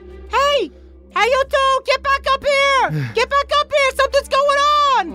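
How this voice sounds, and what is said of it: Imitated peaker guard voice. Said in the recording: “in a peaker voice ... really good voice ... That's exactly how the peakers speak.”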